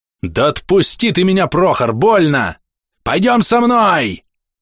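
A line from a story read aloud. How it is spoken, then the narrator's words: Frantic scream, grown man. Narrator (Russian): Истошно завопил дядька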